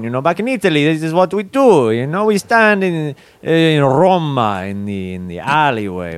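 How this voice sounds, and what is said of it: Thick put-on Italian accent. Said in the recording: “Many Americans don't speak with a thick Italian accent.”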